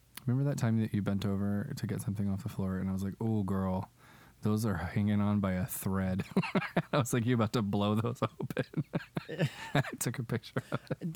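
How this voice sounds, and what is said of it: Lower voice from a cold. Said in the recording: “I'm still getting over a cold. And my voice is still a little bit lower, and I'm still coughing”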